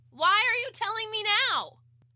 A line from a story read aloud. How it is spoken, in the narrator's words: I yelled back